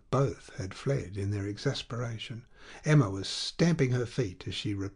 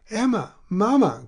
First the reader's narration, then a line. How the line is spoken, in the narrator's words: cried Charles, trying to reconcile them